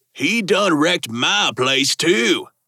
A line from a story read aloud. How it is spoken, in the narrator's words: the face said with a drawl